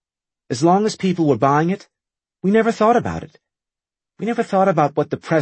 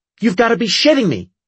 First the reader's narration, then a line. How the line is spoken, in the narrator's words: she snapped